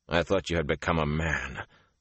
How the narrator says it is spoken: the warder said harshly

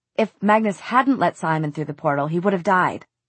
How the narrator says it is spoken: Alec said, a little sharply

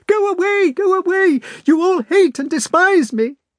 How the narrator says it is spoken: Natasha cried out

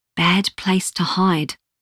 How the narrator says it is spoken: she whispered

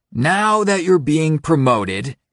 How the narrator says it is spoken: he says, even more loudly and brashly than normal

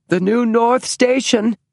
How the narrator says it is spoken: said James in a strangely high voice

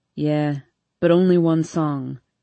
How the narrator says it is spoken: he grumbles

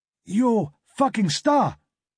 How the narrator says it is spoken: screamed at the top of his voice

